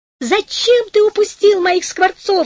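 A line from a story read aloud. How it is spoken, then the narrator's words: Shouting. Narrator (Russian): закричала она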